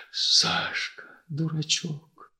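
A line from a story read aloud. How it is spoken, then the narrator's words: Whisper. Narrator (Russian): прошептал Иван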